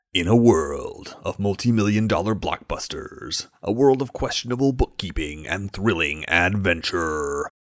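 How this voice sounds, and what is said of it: Don LaFontaine movie trailer voice impression. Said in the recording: “calls for me to do an impression ... the voice of a generation of movie trailers. That man was Don LaFontaine.”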